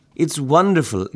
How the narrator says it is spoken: exclaimed Sonia

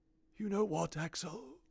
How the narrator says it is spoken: he whispered, as he lay dying

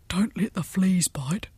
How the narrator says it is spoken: whispered Gordon Gordon

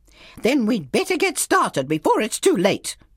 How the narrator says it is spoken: she snapped

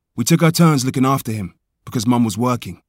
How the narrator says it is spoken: says Anderson

